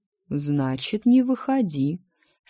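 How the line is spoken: Calm, indifferent. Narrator (Russian): спокойно пожал плечами жрец

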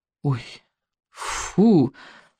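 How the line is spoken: Groaning. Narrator (Russian): простонал Икинг

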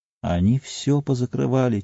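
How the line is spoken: Quiet reply. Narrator (Russian): тихо ответил Норкинс

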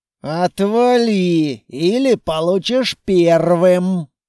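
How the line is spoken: Through gritted teeth. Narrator (Russian): процедил Длинный

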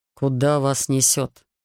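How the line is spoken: Calming grumble. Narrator (Russian): остывая, буркнул Рихард

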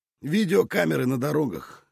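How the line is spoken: Smirking grunt. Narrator (Russian): хмыкнул Шас

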